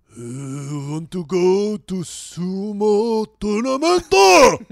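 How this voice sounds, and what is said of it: Inaccurate put-on Japanese accent. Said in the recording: “He speaks in a Japanese accent. I don't think your impression is accurate.”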